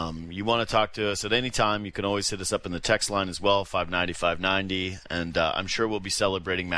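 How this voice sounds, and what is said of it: Usual voice. Nothing is said of it.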